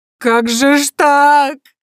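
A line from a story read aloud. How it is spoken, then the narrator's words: Loud sobbing. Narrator (Russian): во весь голос зарыдала она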